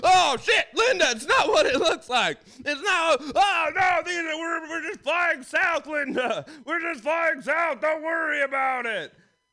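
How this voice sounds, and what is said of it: Comic character voice of a goose. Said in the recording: “my impression of uh, six geese a laying”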